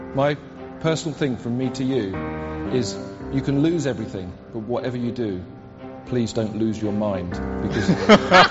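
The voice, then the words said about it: British accent. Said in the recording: “Why it sounds so much worse in a British accent? ... Sound worse in that accent, don't it?”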